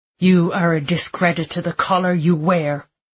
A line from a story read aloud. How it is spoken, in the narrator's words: Bishop Connor spat